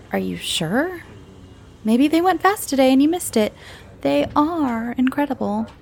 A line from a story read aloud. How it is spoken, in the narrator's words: said teasingly